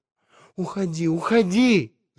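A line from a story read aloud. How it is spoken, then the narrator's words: Shouted. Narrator (Russian): закричала она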